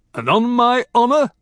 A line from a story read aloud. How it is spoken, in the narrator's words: Bear said, his voice booming